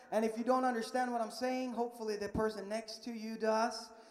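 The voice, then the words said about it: Swedish accent in English. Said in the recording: “there's something wrong with my accent ... I am from Sweden”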